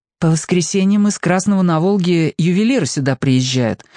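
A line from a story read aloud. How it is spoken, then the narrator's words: Plain. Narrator (Russian): сказала Саша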